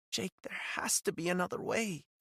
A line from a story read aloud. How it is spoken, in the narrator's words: she said, her voice barely a whisper